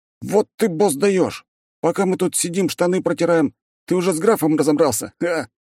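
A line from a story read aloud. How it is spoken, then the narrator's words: Exclaiming. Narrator (Russian): воскликнул один из них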